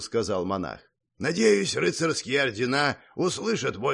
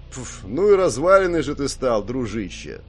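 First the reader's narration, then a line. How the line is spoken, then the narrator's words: Mocking. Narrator (Russian): насмешливо сказал Гордей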